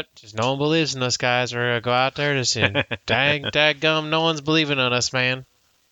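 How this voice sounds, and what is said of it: Put-on Southern accent impression. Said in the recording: “Why does it sound like Hank Hill now? ... that's probably the only Southern type accent he can do ... It definitely turned into Hank Hill at the end there.”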